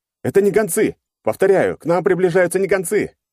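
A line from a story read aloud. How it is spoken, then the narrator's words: Pilot yelling over radio. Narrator (Russian): заорал какой-то пилот МКП на общем канале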